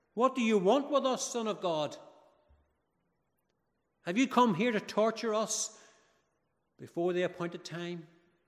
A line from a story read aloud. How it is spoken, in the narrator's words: they shouted out